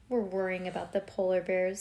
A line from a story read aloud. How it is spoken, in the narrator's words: said Ivy gloomily